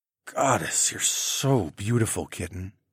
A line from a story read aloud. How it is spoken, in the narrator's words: I murmured